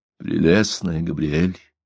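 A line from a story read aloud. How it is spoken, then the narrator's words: Barely audible. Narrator (Russian): произнес он чуть слышно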